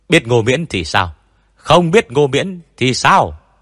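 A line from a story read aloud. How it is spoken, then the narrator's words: Shouting from behind. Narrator (Vietnamese): Tôn Mập hét lên từ đằng sau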